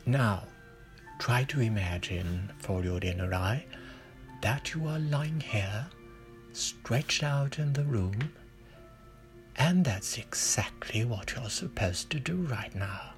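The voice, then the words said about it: Quiet, lowered soothing voice. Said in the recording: “I will try to lower my voice so not to disturb you”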